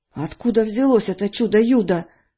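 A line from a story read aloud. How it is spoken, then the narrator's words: Trembling question. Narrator (Russian): дрожащим голосом спросил Дональд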